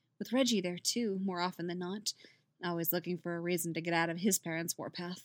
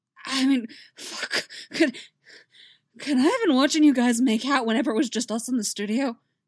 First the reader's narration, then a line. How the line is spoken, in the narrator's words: He asks breathlessly